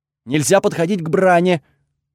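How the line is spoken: Loud, fearful. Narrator (Russian): тут же выдал Айкс, тоже громко, будто боялся, что если я его не расслышу, то прикончу на месте

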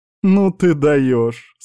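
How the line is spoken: Laughing. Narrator (Russian): смеялась Мицука

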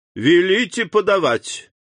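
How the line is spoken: Loud shout. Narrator (Russian): Дебре громко крикнул

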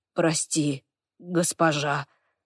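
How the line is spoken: Mumbling. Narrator (Russian): бормочет

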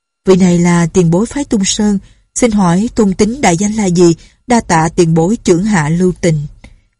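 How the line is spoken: Smiling speech. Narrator (Vietnamese): Lệnh Hồ Xung mỉm cười nói

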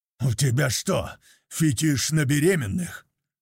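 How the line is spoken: Growl. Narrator (Russian): прорычал я

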